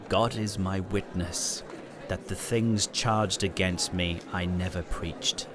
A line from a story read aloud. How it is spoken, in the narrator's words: Hus replied calmly